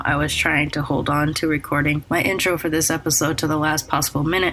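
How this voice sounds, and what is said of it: Sick-sounding voice. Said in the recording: “you could probably tell from my voice, I'm actually very sick right now ... bear with me with this voice”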